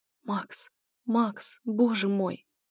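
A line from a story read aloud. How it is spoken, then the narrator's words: Incoherent whisper. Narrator (Russian): Я шептала глупо и бессвязно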